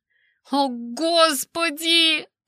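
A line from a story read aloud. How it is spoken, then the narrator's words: Moan. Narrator (Russian): простонала я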